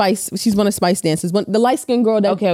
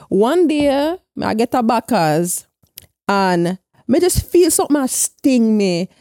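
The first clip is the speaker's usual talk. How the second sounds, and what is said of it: Put-on accent quoting someone. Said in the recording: “When she's doing the accent”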